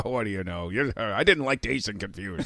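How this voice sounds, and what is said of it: Mocking impression of co-host. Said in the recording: “you do a pretty mean impression of John”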